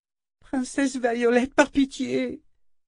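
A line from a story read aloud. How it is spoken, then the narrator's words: Moaning plea. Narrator (French): gémit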